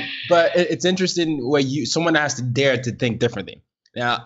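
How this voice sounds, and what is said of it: Usual voice. Nothing is said of it.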